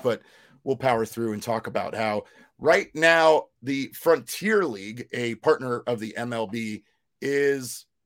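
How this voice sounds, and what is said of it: Raspy, failing voice. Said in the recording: “I, again, am literally in the middle of losing my raspy voice”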